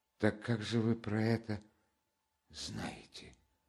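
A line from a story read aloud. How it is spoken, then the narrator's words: Barely audible question. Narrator (Russian): Опять чуть слышно спросила она, и опять почти после минутного молчания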